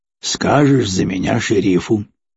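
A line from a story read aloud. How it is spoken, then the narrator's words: Snort. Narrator (Russian): хмыкнул Седой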